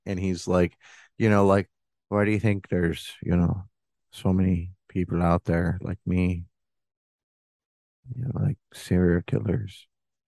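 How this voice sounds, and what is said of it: Put-on Minnesota accent. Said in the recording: “I'm sorry, I'm not trying to do that good, or I don't think it's that good... it's just a Minnesota accent.”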